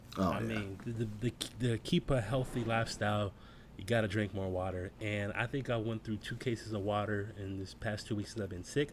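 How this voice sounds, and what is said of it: Sick-sounding voice. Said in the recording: “I don't know if you guys can tell by my voice. I've been sick for like about 2 weeks now.”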